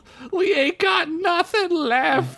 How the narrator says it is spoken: he cried

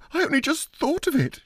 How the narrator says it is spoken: she said hysterically

